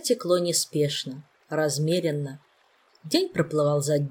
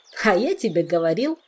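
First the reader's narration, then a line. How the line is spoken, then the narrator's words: Triumphant voice after giggling. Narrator (Russian): раздался вслед за хихиканьем торжествующий голос Жака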